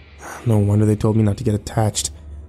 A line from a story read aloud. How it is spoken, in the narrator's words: his father grumbled